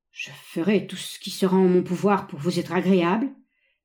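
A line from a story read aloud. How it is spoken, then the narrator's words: Deeply troubled stammering. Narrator (French): bégaya Édouard Edmond, profondément troublé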